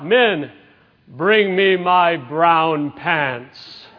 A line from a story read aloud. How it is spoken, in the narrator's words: bellowed out